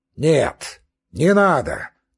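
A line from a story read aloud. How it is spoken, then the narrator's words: Repeated shout. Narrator (Russian): тотчас же опять крикнул он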